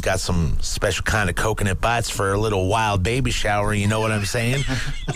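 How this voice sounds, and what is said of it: Texan-sounding accent. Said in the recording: “Where did you just come from, Texas? ... where'd that accent come from?”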